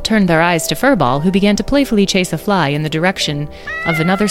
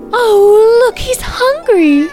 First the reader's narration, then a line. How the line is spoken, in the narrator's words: cooed Magnolia